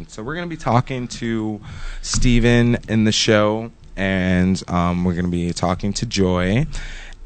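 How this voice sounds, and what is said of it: Sleepy-sounding voice. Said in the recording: “I sound a little sleepy”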